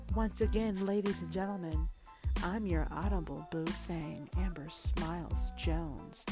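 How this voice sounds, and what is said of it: Sultry, seductive voice. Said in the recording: “put on my sexy voice.”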